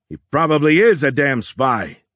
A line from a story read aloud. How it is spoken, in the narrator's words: Kamer yelled